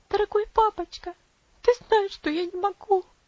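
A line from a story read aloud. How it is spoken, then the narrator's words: Sobbing. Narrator (Russian): всхлипнула она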